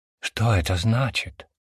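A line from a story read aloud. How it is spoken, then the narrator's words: Whisper. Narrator (Russian): прошептал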